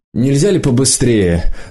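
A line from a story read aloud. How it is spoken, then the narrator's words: Irritated question from behind. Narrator (Russian): раздраженно спросили из-за спины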